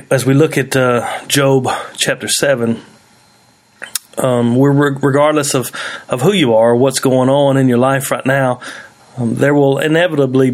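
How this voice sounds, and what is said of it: Congested, snotty sick-sounding voice. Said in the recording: “If I sound a little snotty, my voice is a little messed up... I'm pretty sick... some coughing”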